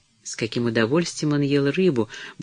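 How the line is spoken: Muttering to herself. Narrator (Russian): бормотала она про себя

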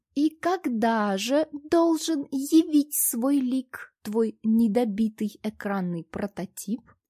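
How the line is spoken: Slow drawling question. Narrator (Russian): Медленно растягивая слова, поинтересовался режиссер

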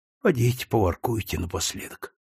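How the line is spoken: Mother grumbling. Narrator (Russian): ворчала мать

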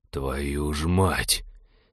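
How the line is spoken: Breathed out. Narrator (Russian): Выдохнул он

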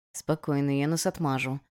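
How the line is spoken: Whisper through closed lips. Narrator (Russian): Тир, не размыкая губ, прошептал

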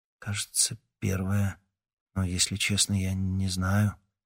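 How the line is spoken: Uncertain. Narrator (Russian): неуверенно сказал Никита

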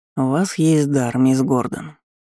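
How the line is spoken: Indifferent tone. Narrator (Russian): безразличным тоном заявил маг

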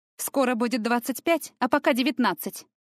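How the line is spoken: Snappish retort. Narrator (Russian): огрызнулась Таяна

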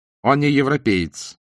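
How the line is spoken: Irritated. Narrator (Russian): раздраженно повторил Лао

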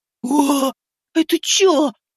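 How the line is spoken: Shrieking in fright. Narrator (Russian): завизжал он при виде огромной двуглавой крысы

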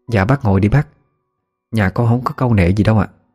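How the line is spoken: Smiling, polite. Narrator (Vietnamese): Chị Vân chị mỉm cười nói

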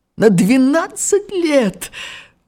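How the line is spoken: Delighted exclamation. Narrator (Russian): воскликнул он в восторге

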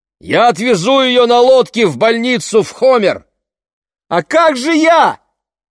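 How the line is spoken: Shouted reply. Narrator (Russian): крикнула в ответ Лени

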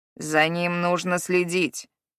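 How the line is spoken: Grumbling. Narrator (Russian): проворчал Харрод

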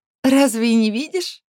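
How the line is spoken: Giggling. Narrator (Russian): хихикает Алекс

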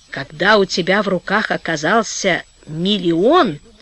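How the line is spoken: Hoarse after laughing. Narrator (Russian): отсмеявшись, хрипло проговорил сквозняк

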